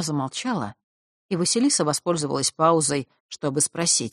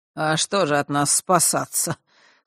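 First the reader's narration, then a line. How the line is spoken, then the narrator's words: Scoffing snort. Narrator (Russian): хмыкнула Хронимара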